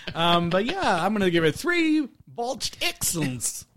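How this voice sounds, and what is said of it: Poorly done put-on accent. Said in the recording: “I'm sorry, that was a botched accent.”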